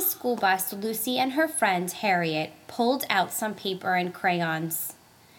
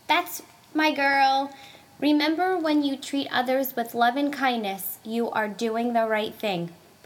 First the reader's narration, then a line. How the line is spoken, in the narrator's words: Papa Gino replied